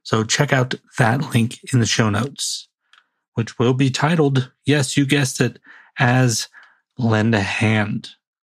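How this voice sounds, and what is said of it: Raspy voice. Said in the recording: “I'm getting the raspy voice”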